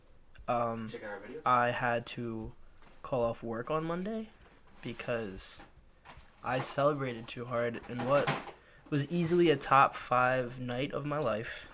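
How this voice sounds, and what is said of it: Hoarse, strained voice. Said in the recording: “My voice is still not completely healed from Sunday. There was a lot of screaming.”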